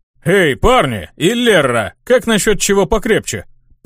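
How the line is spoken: Deep bass voice. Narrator (Russian): Пробасил Абдусциус

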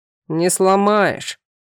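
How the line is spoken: Deep bass voice. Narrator (Russian): густым басом произнес второй

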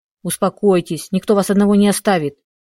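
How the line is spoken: Muttered through teeth. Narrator (Russian): сквозь зубы пробормотала я

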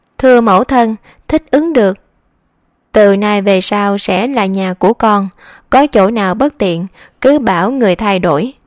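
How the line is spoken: Smiling. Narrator (Vietnamese): Gia Ninh mỉm cười

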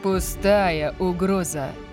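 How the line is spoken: Purring. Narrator (Russian): промурлыкал Лайнел

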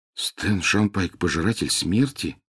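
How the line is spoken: Muttering. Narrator (Russian): пробормотал Гарри

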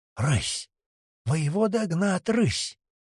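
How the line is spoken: Incredulous whisper. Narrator (Russian): неверяще шепотом переспросил

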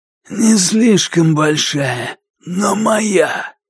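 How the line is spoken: Hoarse wheezing voice. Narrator (Russian): От старых болезней он хрипел

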